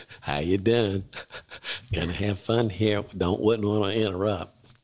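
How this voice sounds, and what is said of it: Imitates another person's voice. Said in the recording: “your George Bush impression... That was terrible”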